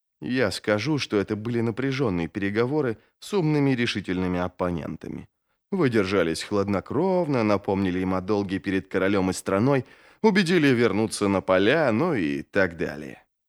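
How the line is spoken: Whispered into an ear. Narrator (Russian): прошептал первый из магов на ухо Джизалю

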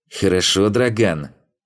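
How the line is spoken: Through gritted teeth. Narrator (Russian): произнес купчонок сквозь зубы

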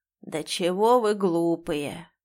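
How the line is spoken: Hoarse voice. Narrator (Russian): раздался хрипловатый голос

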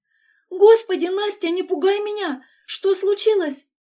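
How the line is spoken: Frightened. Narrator (Russian): испуганно произносит Даша

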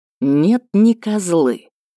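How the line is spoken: Hissed. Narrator (Russian): прошипел Кириан

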